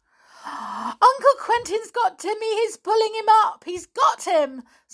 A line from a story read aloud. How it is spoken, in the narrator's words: squealed Anne